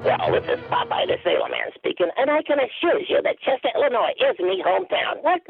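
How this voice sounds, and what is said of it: Popeye impression. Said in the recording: “doing a pretty good Popeye impression.”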